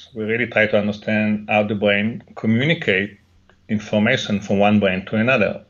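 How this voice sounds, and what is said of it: Heavy Israeli accent. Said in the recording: “I have an heavy accent, so it's also very difficult to understand me for the audience. ... I grew up in Jerusalem, in Israel”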